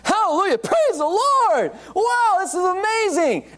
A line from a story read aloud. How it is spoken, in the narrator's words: Young convert, he shouts